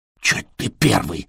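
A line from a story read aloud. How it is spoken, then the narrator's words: Indignant whisper. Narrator (Russian): шепотом возмутился Траин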